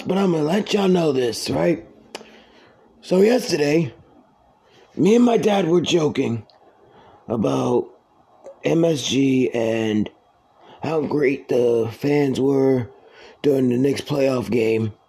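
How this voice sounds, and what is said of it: Rough, damaged voice. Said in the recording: “My voice is fucked”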